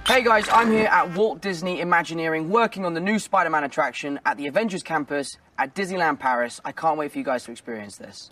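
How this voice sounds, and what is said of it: South London accent. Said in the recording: “Tom Holland and his South London accent”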